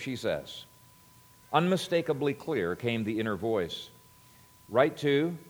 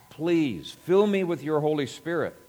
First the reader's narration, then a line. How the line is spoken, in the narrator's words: she cried out to God